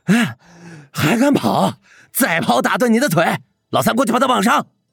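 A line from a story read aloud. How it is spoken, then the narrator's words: Breathless shout. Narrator (Chinese): 他气喘吁吁的冲着帕奇喊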